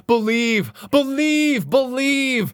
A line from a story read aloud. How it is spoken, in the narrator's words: The minister has cried